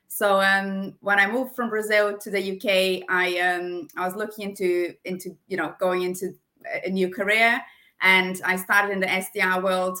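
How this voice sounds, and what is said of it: Slight German accent. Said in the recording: “I'm half German and half Brazilian. So you can definitely listen, hear a bit of a German accent there”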